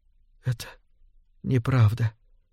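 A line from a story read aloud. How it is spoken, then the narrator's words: Barely audible. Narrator (Russian): едва слышно проговорила она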